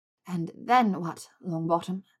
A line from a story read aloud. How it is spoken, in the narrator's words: She whispered